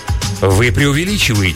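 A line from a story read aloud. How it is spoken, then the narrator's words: Plain. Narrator (Russian): сказал Адьер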